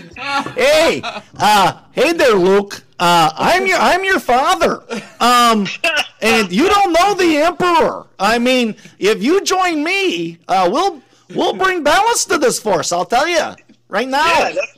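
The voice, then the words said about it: Put-on northern Minnesota accent. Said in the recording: “I do famous movie scenes with a northern Minnesota accent.”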